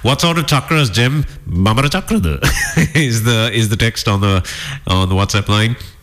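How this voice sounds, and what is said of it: Put-on Indian accent. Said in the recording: “I'm doing the Indian accent again”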